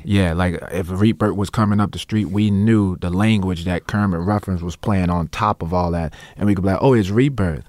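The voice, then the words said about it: New Orleans accent. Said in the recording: “I speak with my New Orleans accent ... I'll be speaking in the New Orleans accent”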